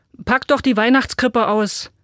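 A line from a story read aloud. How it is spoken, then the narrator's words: Father calling from below. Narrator (German): rief Christophs Vater unter dem Tannenbaum hervor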